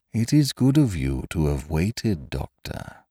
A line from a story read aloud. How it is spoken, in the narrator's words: he said in his huskily musical voice